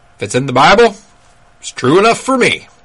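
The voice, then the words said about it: Exaggerated Southern accent. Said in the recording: “kind of a weird southern accent”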